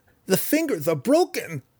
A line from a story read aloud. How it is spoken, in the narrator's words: dying gasped in protest